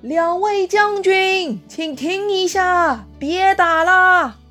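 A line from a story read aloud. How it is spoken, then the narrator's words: Shouting. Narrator (Chinese): 嘴里喊着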